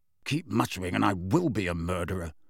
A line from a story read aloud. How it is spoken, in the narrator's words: said Sirius irritably